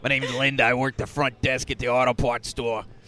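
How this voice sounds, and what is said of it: Raspy smoker's character voice. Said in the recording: “Like I smoked every day for 5 years... I've been smoking every day since 85”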